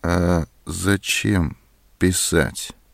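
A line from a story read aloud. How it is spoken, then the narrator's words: Cold. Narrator (Russian): холодно сказала Зоська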